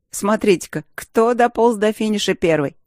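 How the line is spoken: Snide. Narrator (Russian): ехидно начал Джером

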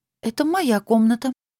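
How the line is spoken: Timid reminder. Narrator (Russian): робко напомнила

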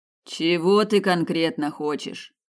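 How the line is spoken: Sighing. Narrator (Russian): вздохнул ван Нистельрой

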